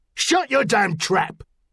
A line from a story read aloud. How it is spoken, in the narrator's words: the seaman barked